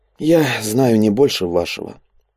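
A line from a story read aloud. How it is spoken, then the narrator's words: Weary. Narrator (Russian): устало покачал головой Андрей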